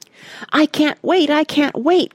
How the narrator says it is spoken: cried Randy

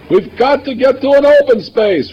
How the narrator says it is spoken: Ray shouted

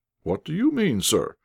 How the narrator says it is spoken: exclaimed

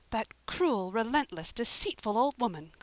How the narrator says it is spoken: cried Anne

